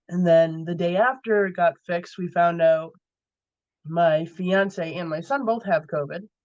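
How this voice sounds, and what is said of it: Funny, sultry voice from illness. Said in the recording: “my voice is still a little funny ... It's my sultry COVID voice.”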